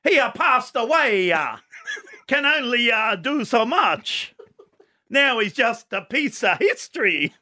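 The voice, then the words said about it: Put-on Italian accent. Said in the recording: “It's an Italian joke, okay? I've just got to get into my accent. ... See, the accent, the good joke”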